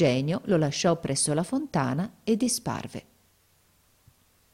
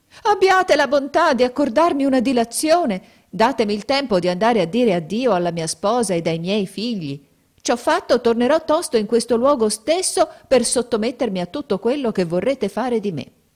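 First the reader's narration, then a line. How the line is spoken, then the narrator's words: Terrified crying plea. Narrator (Italian): il mercante vide che il genio stava per troncargli la testa, gettò un grido e gli disse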